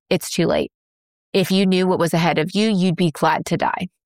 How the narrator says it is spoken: Jones stared at her coldly and flatly and said

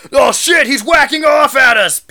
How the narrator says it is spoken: Peter Benis yelled

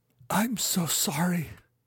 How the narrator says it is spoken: whispered

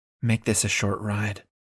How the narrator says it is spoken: whispers

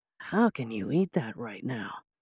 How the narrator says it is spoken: Whispering, he asked

